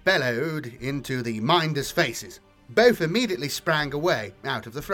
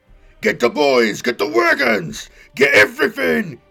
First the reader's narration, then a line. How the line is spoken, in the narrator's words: he yelled at Gorag